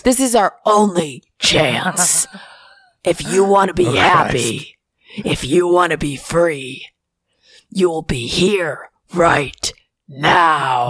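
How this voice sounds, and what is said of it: Tony Robbins impression. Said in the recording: “do a Tony Robbins impression ... It really hurts my throat”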